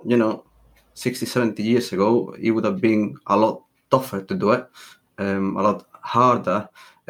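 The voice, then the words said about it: Spanish accent. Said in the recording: “Spanish. You probably can see by the accent.”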